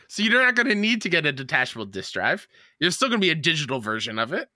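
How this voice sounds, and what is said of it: Shouting, ranting voice. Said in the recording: “He's shouting, ... He's shouting.”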